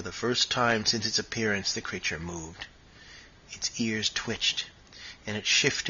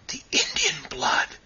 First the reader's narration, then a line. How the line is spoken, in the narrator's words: whispered John Silence